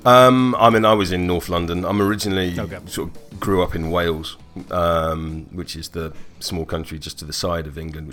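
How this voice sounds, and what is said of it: British accent. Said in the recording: “as you can probably tell by the British accent”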